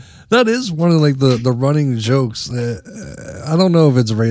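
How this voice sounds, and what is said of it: Usual voice. Nothing is said of it.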